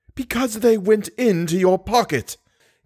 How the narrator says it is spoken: gasped the old woman

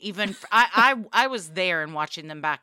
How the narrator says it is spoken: I laughed

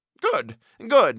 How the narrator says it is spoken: exclaimed the major, and snapped his fingers with delight

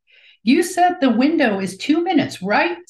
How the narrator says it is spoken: Cy shouts to her wingman

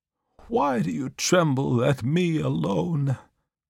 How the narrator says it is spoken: cried he

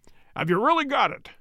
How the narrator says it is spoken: he cried

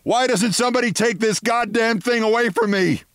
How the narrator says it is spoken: a great-grandmother struggling with a butter churn and screaming into the void

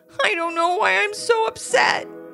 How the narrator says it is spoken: sobbed Ivy

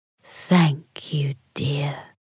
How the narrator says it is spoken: the giant said in a hushed voice

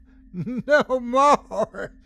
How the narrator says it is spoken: yelled gleefully

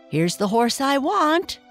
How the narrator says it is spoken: the boy cried at her

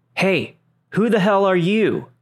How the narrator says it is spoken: I hear her father yell out

